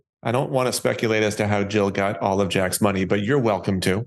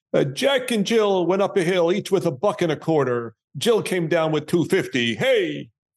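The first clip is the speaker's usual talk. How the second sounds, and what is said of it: Attempted Andrew Dice Clay impression. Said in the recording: “the Andrew Dice Clay version ... I'll try to do it with the Dice Man accent, although I'll fail”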